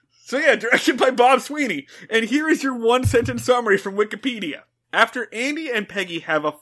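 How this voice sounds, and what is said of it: Usual voice. Nothing is said of it.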